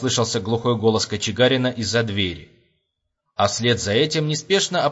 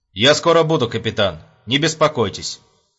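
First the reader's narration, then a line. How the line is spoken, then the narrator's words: Cold pronouncement. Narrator (Russian): холодным тоном изрек майор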